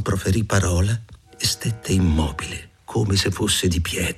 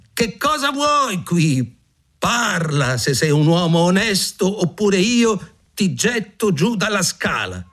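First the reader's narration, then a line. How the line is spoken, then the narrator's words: Frightened shout. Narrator (Italian): il giovane credette che fosse uno spettro e gridò per la seconda volta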